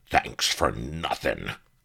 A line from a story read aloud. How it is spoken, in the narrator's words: he growled